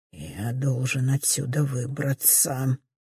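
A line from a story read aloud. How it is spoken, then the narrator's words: Mutter. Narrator (Russian): Бормочет трубач ансамбля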